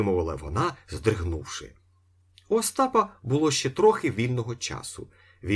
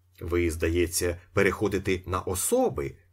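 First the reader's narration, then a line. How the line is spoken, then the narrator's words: Cold remark. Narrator (Ukrainian): зауважив Остап холодно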